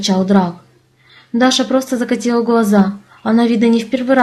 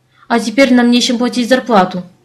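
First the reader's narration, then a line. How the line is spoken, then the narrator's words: Growling. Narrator (Russian): прорычал Тарк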